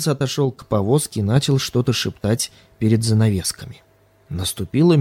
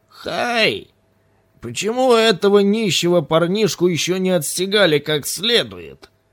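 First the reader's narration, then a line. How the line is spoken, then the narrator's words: Old woman shouting. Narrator (Russian): крикнула старуха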